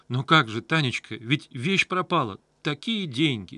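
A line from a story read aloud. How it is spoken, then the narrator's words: Babbling. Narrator (Russian): лепетала хозяйка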